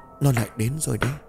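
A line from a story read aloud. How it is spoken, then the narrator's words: Shivering, stammering. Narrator (Vietnamese): Phương Mai khẽ rùng mình, cô lắp bắp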